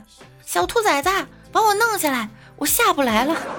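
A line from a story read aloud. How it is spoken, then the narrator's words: Loud shout from behind. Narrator (Chinese): 后面大喊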